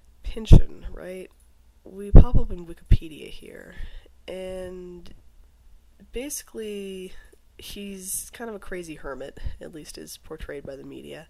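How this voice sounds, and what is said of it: Hoarse, congested voice from a cold. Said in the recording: “apologize for my voice. It's just getting worse as I record here. I have a bad cold.”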